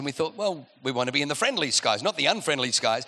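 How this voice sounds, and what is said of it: Australian accent. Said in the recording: “you can tell from the accent, we grew up in another country, Australia”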